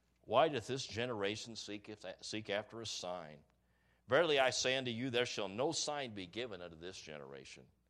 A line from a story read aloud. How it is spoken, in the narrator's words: sighed deeply in his spirit and saith